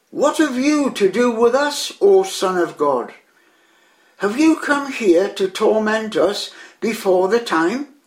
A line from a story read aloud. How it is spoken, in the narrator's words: they cried out to the Lord